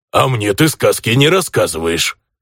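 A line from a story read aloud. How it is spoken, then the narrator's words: Genuinely offended grumble, orc. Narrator (Russian): Обиженно, даже без притворства, проворчал орк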